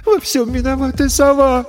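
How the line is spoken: Sobbing. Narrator (Russian): всхлипнула Ресси

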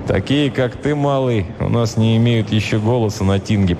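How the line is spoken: Gruff grumble. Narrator (Russian): проворчал варяг

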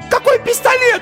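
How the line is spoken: Shrieked. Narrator (Russian): взвизгнула Ирина

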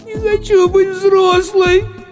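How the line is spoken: Girl sobbing. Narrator (Russian): всхлипнула девочка

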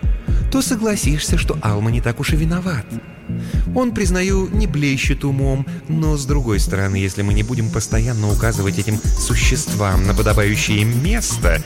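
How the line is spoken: Ingratiating tone. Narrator (Russian): вкрадчиво произнесла Ния

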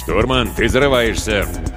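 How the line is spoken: Mock-stern growl. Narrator (Russian): с напускной суровостью рыкнул Виктор

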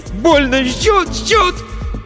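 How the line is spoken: Scream in pain. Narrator (Russian): Закричал

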